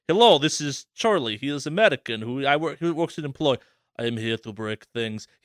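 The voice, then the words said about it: Mock Russian henchman accent. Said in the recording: “Eastern Europe, Russian, German ... Nikolai Tracksuit's, like, burly henchman ... accents for this bit ... your accent changes”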